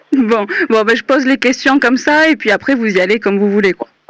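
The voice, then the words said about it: Regional French Aveyron accent. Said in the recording (French): “D'où vient cet accent? ... De l'Aveyron. ... Ça s'entend tant que ça? ... Mais carrément”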